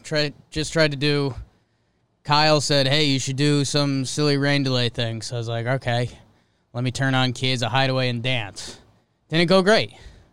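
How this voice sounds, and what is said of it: Out of breath, breathless speech. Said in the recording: “I'm a little out of breath.”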